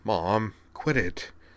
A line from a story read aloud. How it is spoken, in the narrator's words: said Corwin under his breath, reddening a little